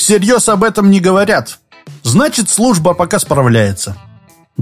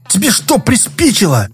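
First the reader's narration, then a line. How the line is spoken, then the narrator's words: Many voices hissing. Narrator (Russian): Зашипели на Иванова отовсюду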